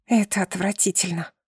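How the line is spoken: Whisper. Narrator (Russian): шепнула я

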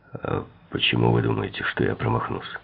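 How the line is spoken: Hoarse objection. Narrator (Russian): хрипло возразил Шапейро

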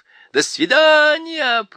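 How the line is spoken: Shouted. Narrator (Russian): прокричал Гогу

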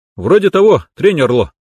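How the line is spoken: Cheerful reply. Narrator (Russian): бодро ответил

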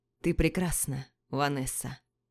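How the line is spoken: Hoarse praise. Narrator (Russian): Севшим голосом хвалит

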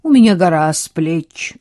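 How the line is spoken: Dry reply. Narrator (Russian): сухо ответил

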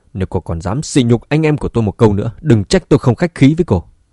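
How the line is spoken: Angry. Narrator (Vietnamese): Vương Dũng tức giận nói

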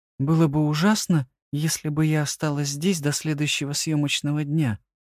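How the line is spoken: Quiet question. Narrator (Russian): тихо спросила Елена

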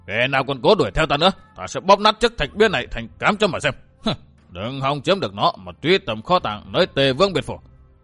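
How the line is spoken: Shouted down from above. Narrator (Vietnamese): Đông Hải chân quân Lãnh Cửu quát phỏng xuống

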